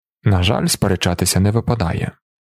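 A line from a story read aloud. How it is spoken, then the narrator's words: Sighing. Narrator (Ukrainian): Далінар зітхнув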